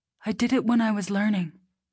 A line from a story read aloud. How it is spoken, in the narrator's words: Eli whispered in response